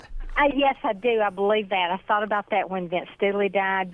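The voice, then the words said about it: Southern American accent. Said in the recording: “Southern accent, and yours is so wonderful, Southern accent that we are hearing now”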